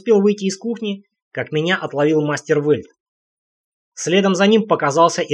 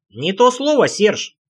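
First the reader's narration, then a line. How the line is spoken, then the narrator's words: Cheerful grinning. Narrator (Russian): весело оскалился Рейн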